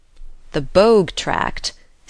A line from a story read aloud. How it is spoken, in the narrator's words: said Uncle John slowly